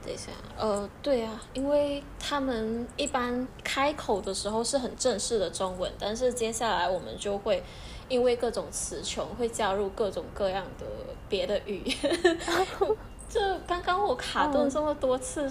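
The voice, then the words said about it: Malaysian-accented Mandarin. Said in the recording (Chinese): “马来西亚的口音是这样的”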